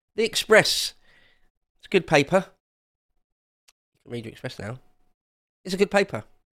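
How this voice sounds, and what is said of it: Sarcastic praise. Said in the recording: “I'm being sarcastic.”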